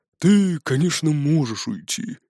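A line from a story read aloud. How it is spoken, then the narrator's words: Sighing. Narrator (Russian): вздохнул Бродди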